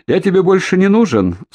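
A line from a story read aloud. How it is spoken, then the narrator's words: Laughing. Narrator (Russian): Солодов засмеялся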